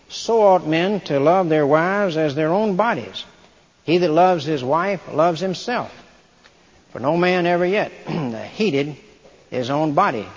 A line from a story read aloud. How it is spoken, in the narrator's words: says